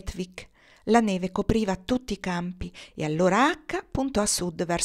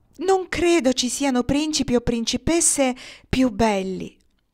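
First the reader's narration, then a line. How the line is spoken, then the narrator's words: Exclaiming. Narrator (Italian): esclamò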